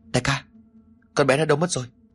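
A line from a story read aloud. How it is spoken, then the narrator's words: Stammering shock. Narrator (Vietnamese): gã ta miệng lắp bắp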